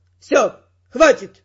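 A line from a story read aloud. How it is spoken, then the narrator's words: Sharp bark. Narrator (Russian): рявкнул Феррант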